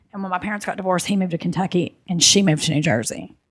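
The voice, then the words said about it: Noticeable regional accent. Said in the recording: “it goes from between a 6 to a 12. When I go on stage, it's dialed up so much... when I get excited, it goes... But I'm between a 6 and a 12 of my accent scale.”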